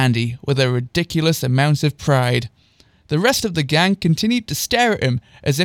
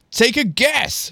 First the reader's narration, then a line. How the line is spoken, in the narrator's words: shouted Andy from across the room with a massive toothy grin